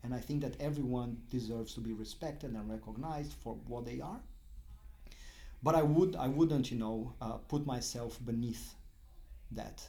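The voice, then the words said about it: Brazilian-accented English. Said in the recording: “you can hear my accent, when you look at me, I don't look Brazilian”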